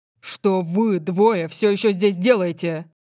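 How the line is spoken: Barked. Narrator (Russian): Рявкнул он

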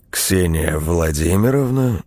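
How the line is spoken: Low-voiced question. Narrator (Russian): низким голосом спросил незнакомец

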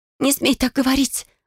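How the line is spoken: Breathless. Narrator (Russian): выдохнула Бекки

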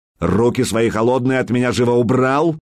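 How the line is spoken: Sharp shout. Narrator (Russian): прикрикнул он на Сварга

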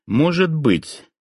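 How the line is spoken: Mumbling. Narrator (Russian): промямлил я

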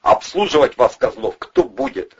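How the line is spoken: Angry question. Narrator (Russian): зло поинтересовался Провилов

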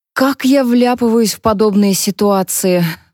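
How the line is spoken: Sighing. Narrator (Russian): вздохнула она

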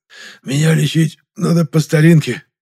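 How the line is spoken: Pained rasp. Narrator (Russian): прохрипел Гришка, морщась от боли

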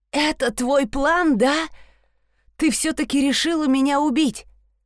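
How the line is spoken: Groan. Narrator (Russian): Простонал он

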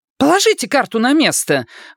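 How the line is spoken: Exclaimed. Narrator (Russian): воскликнула

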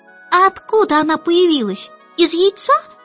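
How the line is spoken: Chick squeaking suddenly. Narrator (Russian): пропищал вдруг птенец

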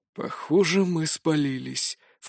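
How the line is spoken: Low-voiced remark. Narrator (Russian): вполголоса заметил Мор

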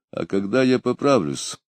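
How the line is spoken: Gloomy objection. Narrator (Russian): мрачно возразил Потемкин

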